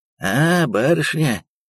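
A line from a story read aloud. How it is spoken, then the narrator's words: Hoarse, raspy voice. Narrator (Russian): сипло и хрипло ответил черный человек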